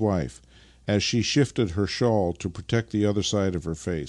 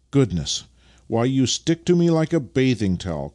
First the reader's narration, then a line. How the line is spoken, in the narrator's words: cried Vasily